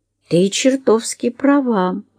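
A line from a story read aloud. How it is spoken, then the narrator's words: Uncertain male voice. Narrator (Russian): неуверенно проговорил он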